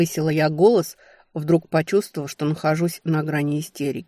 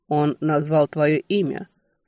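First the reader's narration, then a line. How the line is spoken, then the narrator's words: Dry. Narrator (Russian): сухо подтвердил Таннер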